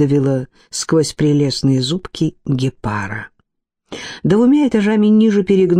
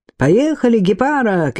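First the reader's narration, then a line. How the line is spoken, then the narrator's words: Shouting upward. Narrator (Russian): крикнул вверх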